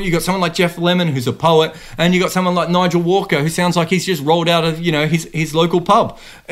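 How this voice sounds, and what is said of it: Loud Australian-accented male voice. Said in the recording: “I've got this weird Australian accent and I'm loud and I, you know, spit when I talk”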